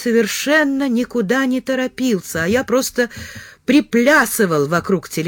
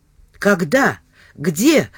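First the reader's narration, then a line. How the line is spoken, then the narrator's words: Breathed out. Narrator (Russian): выдохнул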